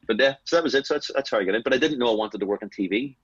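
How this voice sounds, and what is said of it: West Belfast Northern Irish accent. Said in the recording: “I had to moderate my language and my accent so they could understand me ... I'm West Belfast”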